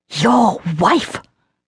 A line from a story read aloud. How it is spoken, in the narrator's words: Lucien spat